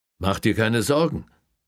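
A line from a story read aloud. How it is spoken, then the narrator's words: Calling after someone. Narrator (German): rief er ihr hinterher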